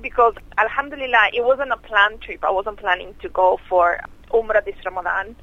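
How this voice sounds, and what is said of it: Excited, upbeat voice. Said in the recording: “You sound very excited.”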